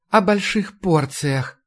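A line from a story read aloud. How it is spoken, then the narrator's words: Dreamy sigh. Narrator (Russian): вздохнула Маша мечтательно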